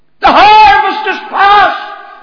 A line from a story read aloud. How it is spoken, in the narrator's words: they cried